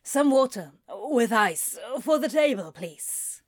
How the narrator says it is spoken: croaked out

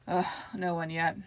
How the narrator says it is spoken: said with a sigh

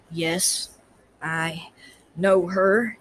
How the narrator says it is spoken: he said with the faintest emphasis in that lazy western drawl

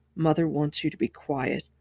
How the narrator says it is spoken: Rand whispered

